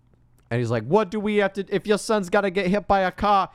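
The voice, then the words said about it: Put-on Brooklyn accent. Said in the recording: “Why am I speaking at a Brooklyn accent?”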